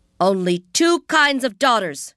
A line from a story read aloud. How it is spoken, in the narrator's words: she shouted in Chinese